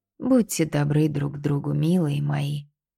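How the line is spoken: Whispering. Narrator (Russian): шептала Сорчия

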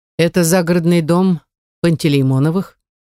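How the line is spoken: Calm fatherly reply. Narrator (Russian): спокойно отвечает отец

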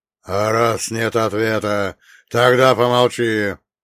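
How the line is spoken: Growl, ancient sorcerer. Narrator (Russian): рыкнул древний колдун

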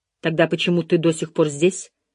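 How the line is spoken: Angry question. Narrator (Russian): Все еще сердито спросила она

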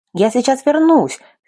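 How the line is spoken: Shouted. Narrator (Russian): крикнула я Лике

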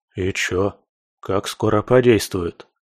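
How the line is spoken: Rapid-fire questions. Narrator (Russian): засыпал меня вопросами жаба

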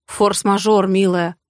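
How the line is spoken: Offended huffing. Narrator (Russian): обиженно пыхчу

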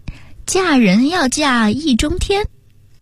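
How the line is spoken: Leisurely joking tone. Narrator (Chinese): 陈珊珊又悠悠地带着开玩笑的口吻说

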